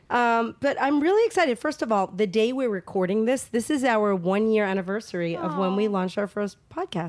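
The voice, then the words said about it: Slightly hoarse voice. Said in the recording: “I am getting over a cold. So if I sound a little hoarse, like a pony”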